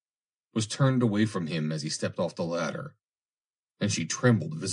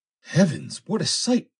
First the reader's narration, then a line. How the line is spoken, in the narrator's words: exclaimed Foster